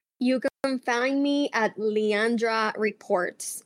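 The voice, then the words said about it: Put-on American accent. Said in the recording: “I said that with my American accent”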